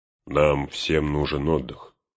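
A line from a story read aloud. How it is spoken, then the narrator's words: Plain. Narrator (Russian): сказал он хранителям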